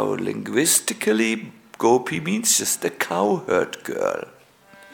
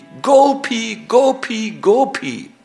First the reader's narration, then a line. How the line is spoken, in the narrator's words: in great yearning, in great anxiety, he would call out very loudly